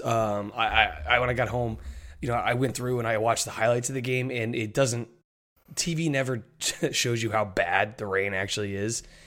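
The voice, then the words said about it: Hoarse, nearly lost voice. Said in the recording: “As you can hear, my voice is gone. Part of it due to yelling”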